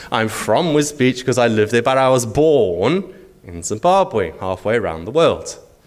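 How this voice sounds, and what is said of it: Noticeable non-local accent. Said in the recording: “you've got a funny accent.”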